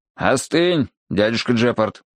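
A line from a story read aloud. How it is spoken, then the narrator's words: Stern voice. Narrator (Russian): строгим голосом сказал я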